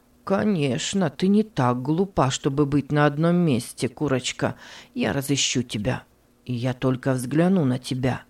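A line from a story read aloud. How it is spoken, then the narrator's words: Muttering. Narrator (Russian): бормотал он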